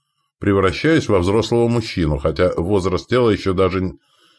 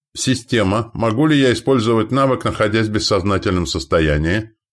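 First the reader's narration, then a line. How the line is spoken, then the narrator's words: Plain. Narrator (Russian): спросил я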